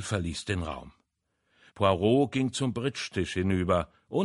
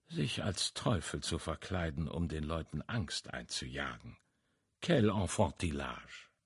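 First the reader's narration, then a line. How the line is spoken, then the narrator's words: Murmuring. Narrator (German): murmelte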